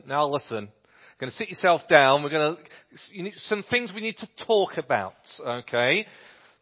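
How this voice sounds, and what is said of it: Put-on northern accent. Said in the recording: “I always feel that I should have a northern accent.”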